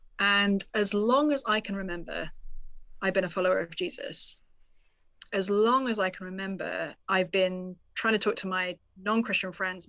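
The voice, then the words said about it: British accent. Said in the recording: “I grew up in the UK, as folks may be able to discern from my accent.”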